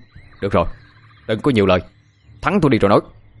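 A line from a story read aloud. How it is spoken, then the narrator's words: Loud shout. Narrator (Vietnamese): tôi quát lớn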